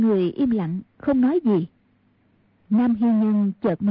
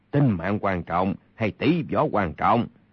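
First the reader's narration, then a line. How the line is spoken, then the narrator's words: Cold. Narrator (Vietnamese): Kha Tinh Ác lạnh lùng nói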